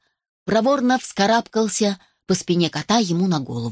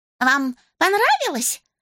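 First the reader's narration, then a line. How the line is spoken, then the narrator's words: Agitated question. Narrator (Russian): взволнованно спросил Жак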